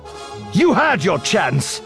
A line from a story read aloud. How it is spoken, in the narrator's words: Kenobi snapped